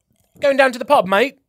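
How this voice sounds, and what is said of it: Put-on British accent. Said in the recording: “Shall we do a British accent? ... Oh, that actually wasn't bad.”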